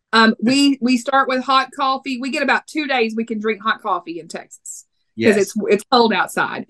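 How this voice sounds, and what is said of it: Texas accent. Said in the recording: “my Texas accent ... my accent kind of throws it off a little bit”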